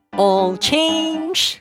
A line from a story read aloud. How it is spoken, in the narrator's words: a large purple rabbit shouted